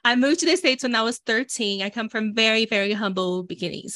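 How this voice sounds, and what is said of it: Brazilian accent, slightly nasal voice. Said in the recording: “I was born in Brazil. You guys gonna hear my accent. ... you're probably going to hear a little more sinusy than it normally is”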